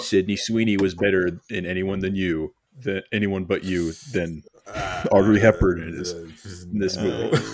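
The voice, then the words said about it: Deadpan, flat joking delivery. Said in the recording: “that didn't sound like a joke... I have a great deadpan.”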